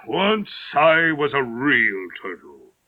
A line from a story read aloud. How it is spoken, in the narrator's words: The Mock Turtle said at last with a deep sigh